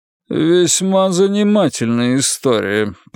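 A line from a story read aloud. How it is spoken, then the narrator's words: Judge's grumble. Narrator (Russian): проворчал судья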